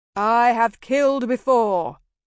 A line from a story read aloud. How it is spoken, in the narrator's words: I intoned